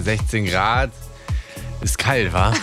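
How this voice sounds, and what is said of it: Put-on Berlin dialect. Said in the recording (German): “Mach auf Berlinerisch, das kannst du. ... Wie sagt man denn 16 Grad auf Berlinerisch?”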